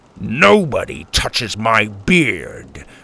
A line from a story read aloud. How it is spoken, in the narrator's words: Grandpa grumbled